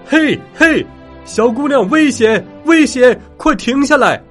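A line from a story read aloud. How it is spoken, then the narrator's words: Soldiers shouting. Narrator (Chinese): 士兵们大喊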